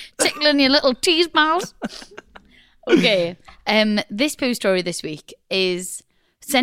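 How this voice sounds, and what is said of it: Usual voice. Nothing is said of it.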